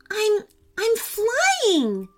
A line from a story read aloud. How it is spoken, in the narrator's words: she cried